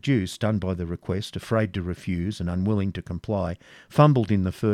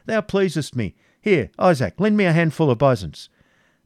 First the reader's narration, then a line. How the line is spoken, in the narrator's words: cried Prince John